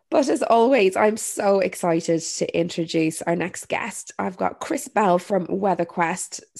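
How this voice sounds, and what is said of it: Congested voice from a head cold. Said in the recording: “I currently have a little bit of hay fever and a head cold, which is probably why I sound a little bit different today”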